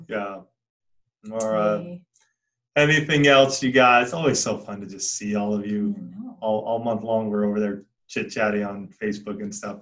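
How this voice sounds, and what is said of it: Worn-out, fading voice. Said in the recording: “my voice is going ... So my voice is a little done”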